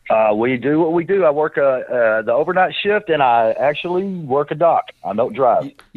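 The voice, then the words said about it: Texas accent. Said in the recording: “You are from Dallas, Texas, and you have the accent to prove it”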